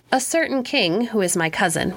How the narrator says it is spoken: replied he

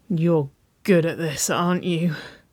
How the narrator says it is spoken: She moaned, a half chuckle escaping her lips

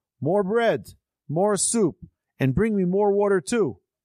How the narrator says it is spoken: He banged on the table and yelled

